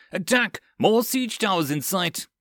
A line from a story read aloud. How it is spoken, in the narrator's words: someone yelled